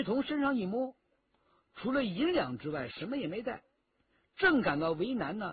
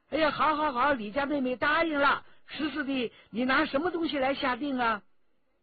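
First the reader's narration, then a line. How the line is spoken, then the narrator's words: Calling out. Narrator (Chinese): 骆宾叫着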